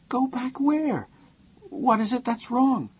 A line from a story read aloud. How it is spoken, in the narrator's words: Her voice was thin and high